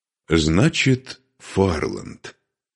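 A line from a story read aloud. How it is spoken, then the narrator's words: Calm. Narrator (Russian): спокойно произнес Духарев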